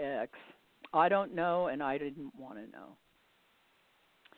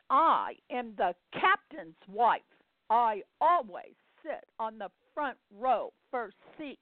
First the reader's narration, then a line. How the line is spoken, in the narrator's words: she threw a fit, announcing to everybody, as well as anybody within shouting distance, she screamed